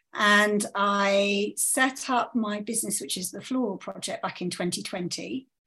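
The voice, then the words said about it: British accent. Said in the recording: “I am based in the UK, as you can tell from my accent”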